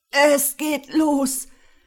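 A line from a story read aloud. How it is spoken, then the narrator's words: Groaning in pain. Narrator (German): stöhnte er, weil erste Schmerzwellen durch diesen hindurchjagten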